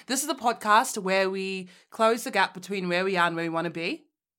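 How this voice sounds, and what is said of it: Put-on Australian accent. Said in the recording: “I'll do my Australian.”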